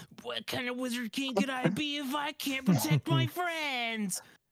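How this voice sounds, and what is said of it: Imitates another person's voice. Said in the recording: “it's a pretty good impression of Austin.”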